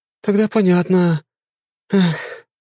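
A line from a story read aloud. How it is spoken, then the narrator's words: Sighing. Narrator (Russian): вздохнула волшебница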